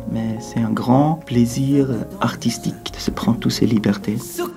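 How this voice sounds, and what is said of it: Swiss French accent. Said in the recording (French): “Avec un accent comme j'ai ... Et le Suisse apaisé.”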